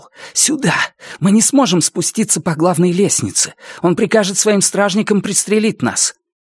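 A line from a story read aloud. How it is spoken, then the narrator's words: Whisper. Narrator (Russian): Раскол прошептал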